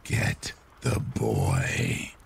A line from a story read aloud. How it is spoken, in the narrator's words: in a very raspy, wispy voice